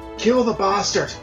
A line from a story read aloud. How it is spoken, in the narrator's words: Gavin yelled